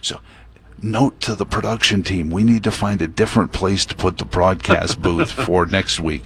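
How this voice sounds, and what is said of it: Hushed golf announcer voice, like Jim Nantz. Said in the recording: “I'm using my golf announcer voice, I feel like, you know, Jim Nance on, you know, the eighth green at Augusta”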